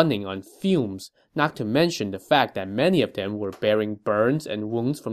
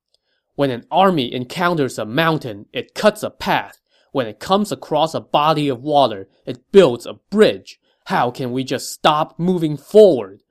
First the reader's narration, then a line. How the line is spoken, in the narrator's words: he said angrily